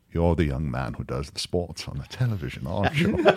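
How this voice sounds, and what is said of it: Elegant upper-class British accent. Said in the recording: “in a very, very elegant upper-class British accent”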